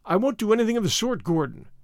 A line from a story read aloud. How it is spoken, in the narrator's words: said Stedman